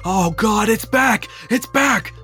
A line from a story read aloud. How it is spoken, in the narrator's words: one of them screams